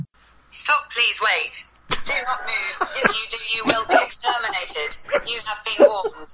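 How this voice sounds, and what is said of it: Robotic female voice. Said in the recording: “automated robot response system ... I have a women's voice now ... he gave me a different voice”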